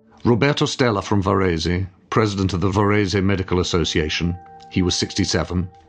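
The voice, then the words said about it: Poor put-on Italian accent. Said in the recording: “my terrible Italian accent”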